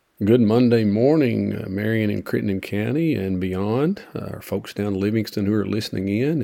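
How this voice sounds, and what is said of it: Scratchy voice. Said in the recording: “my voice is still a bit scratchy this morning after a tough last week”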